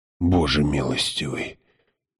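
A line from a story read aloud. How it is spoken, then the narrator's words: Whisper. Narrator (Russian): прошептал отец Хойт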